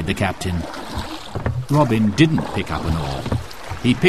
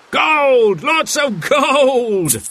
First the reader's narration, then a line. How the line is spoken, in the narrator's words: The captain cried out